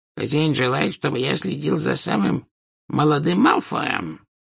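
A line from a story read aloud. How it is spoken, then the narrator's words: Hoarse wheeze. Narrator (Russian): прохрипел Кикимер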